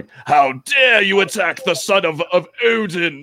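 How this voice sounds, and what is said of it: Imitates an actor's theatrical character voice. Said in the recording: “how like bad his accent is in this ... Like his Thor voice”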